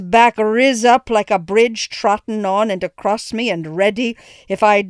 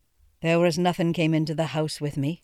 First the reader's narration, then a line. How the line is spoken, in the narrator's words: asked in a very low tone